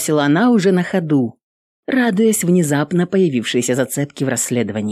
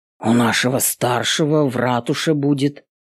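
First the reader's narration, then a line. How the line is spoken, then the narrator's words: Amazed mutter. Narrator (Russian): изумленно пробормотал Стэн, поражаясь ее выводом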